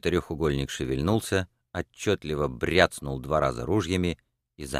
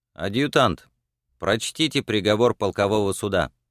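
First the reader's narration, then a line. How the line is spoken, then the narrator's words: Firm clear voice. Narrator (Russian): произнес батальонный своим твердым ясным голосом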